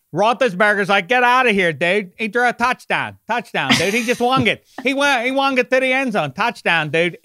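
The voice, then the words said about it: Exaggerated regional American accent. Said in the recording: “the accent. It's right up there with the Boston or down there with the Boston accent for how ugly it is ... It's a terrible accent”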